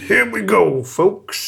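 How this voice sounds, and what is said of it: Imitates another person's voice. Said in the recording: “That's my Dave Filoni impression.”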